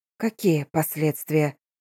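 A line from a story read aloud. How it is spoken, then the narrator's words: Quiet question. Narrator (Russian): спросила тихо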